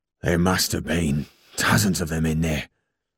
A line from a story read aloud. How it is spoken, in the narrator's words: he muttered